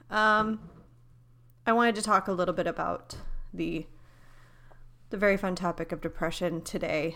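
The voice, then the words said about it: Exhausted, sniffly voice. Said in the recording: “I apologize if I sniff, if I sound exhausted”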